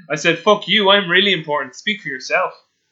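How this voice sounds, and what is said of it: Sarcastic mock-indignant delivery. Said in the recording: “I'm being sarcastic.”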